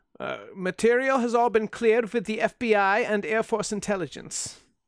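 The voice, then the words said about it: Exaggerated Polish accent. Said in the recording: “it's not nearly that much of an accent, but I can't do a slight Polish accent.”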